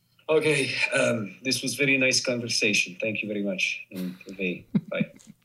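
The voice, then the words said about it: Put-on Polish accent. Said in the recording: “Say goodbye in Polish with a Polish accent.”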